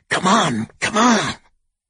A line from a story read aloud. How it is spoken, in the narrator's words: Darling, carrying 4 suitcases, hurried ahead and kept hissing back